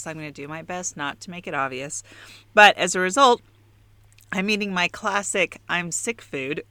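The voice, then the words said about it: Congested voice from a cold. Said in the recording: “I have a little bit of a cold today, which you might hear in my voice.”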